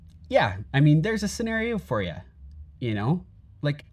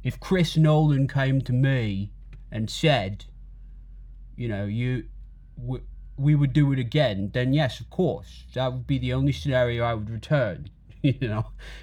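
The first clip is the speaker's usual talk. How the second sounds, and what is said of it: Imitates another person's voice. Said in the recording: “my Christian Bale impression”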